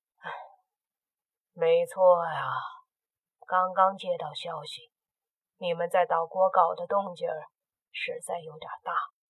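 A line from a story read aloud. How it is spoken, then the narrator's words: Sighing, over the phone. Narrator (Chinese): 电话那头，倪局长叹了口气，开口说道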